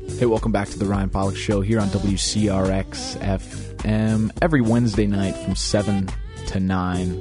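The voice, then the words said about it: Strained, sore voice. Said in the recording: “my voice is killing me. I got to sing a couple times this weekend.”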